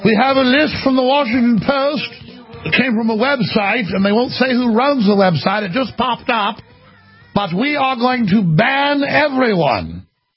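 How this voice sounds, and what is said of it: Put-on British accent, bureaucrat voice. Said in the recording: “I'm doing an EU bureaucrat in a British accent”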